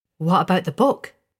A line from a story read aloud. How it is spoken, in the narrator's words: she asked eagerly